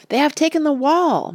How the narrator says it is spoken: men cried

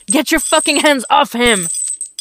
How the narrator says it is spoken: Dick shouts

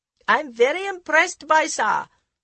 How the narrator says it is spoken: the lawyer shouted over the noise of the propellers

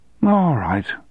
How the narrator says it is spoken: said with a sigh

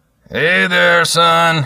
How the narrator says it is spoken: called out

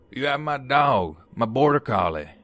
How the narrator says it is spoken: He says in his scruffy southern voice

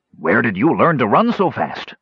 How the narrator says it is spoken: Roperig gasped

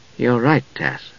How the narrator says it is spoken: Palin said softly

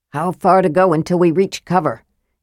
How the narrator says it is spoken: Tanis asked Armin in a low voice

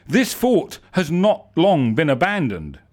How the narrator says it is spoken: said Bim

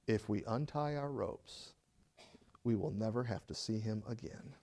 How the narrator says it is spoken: my friend looked at me and said quietly and calmly

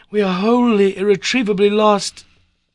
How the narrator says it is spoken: I cried

